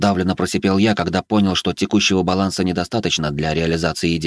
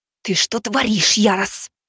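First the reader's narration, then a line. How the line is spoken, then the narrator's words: Hiss. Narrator (Russian): Буквально прошипела Элиза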